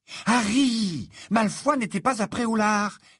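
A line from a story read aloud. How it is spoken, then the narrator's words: Exasperated exclamation. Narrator (French): s'exclama Hermione exaspérée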